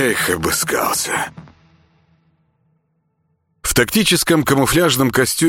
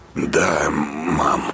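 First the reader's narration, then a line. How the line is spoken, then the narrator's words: Hoarse reply. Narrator (Russian): хрипло отозвался Артем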